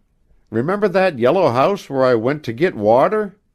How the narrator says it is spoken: Lou laughed, but there was a new note of shyness in her voice

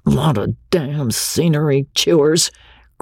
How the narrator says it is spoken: growled the crew, turning in sleep

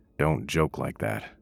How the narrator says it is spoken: William said

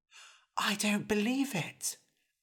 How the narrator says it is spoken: Eric whispered back

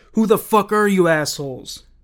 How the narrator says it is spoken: Nino screamed

